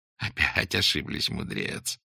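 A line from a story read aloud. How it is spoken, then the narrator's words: Loud laughter. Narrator (Russian): захохотал Сергей Тихонович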